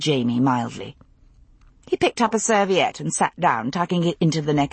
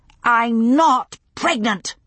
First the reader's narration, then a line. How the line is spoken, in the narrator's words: said Bree, very loudly